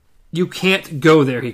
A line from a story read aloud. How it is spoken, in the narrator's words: he cried